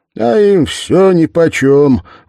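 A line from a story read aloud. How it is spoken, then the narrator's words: Loud. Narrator (Russian): громко сказал он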